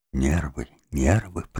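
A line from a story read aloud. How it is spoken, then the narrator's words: Whisper. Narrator (Russian): прошептал доктор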